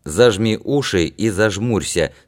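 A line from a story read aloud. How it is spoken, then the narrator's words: Plain. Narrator (Russian): сказал Яр Чите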